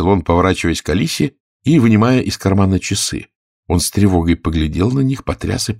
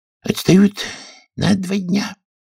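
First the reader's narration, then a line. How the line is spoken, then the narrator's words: Sigh. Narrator (Russian): вздохнул болванщик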